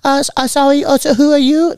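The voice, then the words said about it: Mixed European-sounding put-on accent. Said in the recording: “I don't know what accent that is, but you know that is the blend of all the accents”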